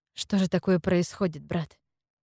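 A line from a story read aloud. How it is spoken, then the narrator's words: Sighed. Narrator (Russian): вздохнула я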